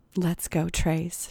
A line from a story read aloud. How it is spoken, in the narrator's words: she said in a breathy voice